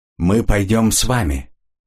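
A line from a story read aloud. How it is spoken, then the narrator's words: Flat, clipped delivery. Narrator (Russian): бесстрастно отчеканила Жанна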